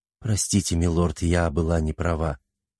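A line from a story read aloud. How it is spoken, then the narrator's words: Quiet. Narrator (Russian): тихо произнесла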